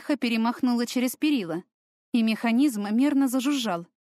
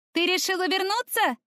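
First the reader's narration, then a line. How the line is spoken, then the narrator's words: Shouted from below. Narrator (Russian): крикнула откуда-то снизу Таяна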